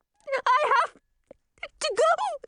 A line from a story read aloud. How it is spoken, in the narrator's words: she wheezed